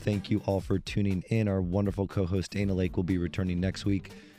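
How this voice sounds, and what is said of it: Slightly hoarse voice. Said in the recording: “with a little bit of a hoarse voice”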